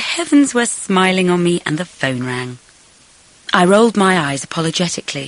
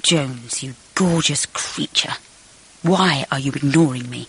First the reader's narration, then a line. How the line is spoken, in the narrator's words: murmured